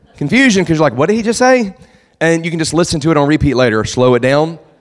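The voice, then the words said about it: Southern accent, very fast speech. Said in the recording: “I sound Southern ... I guess I do ... I talk fast, like really fast”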